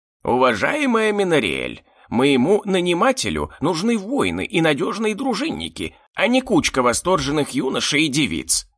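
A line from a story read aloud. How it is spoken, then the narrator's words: Grumbling creaky voice. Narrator (Russian): ворчливо проскрипел гоблин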